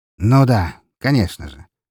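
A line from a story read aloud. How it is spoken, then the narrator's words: Sighing. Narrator (Russian): вздохнула она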